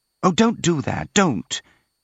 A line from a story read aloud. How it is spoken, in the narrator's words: cried out in alarm